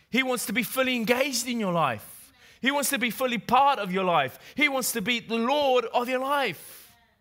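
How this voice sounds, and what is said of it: English accent. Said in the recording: “hence my English accent”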